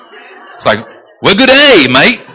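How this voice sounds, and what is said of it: Put-on Australian accent. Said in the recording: “speak Korean with an Australian accent.”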